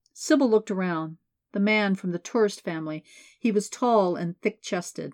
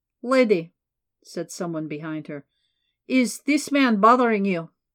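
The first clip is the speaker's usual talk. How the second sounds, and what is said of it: Thick Eastern European accent. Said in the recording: “Thick accent, definitely Eastern European.”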